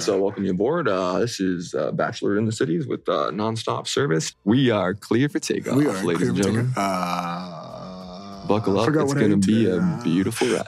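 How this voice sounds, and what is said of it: Deep airline pilot announcement voice. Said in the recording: “we'll work on our sexy deep voices too ... You just got to do your pilot.”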